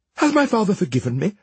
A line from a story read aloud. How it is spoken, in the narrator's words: the princess asked eagerly